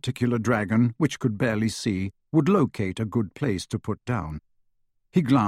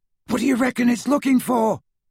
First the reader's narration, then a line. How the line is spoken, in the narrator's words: Ron yelled as they flew farther and farther north